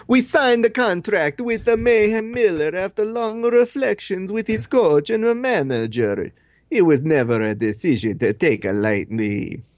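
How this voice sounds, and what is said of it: Put-on Italian-style accent. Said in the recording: “he's going to turn into Mario ... do this accent”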